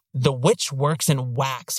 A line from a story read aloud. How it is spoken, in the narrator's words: he snarls of Tussaud